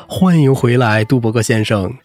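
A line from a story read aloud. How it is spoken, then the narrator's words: Very loud, carrying. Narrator (Chinese): 声音大到剧场最远处都能听到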